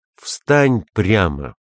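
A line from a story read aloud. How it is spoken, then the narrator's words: Loud exclamation. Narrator (Russian): апостол громким голосом воскликнул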